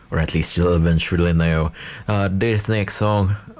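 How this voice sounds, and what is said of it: Put-on accent. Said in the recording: “why am I doing this accent? But it quite suits that”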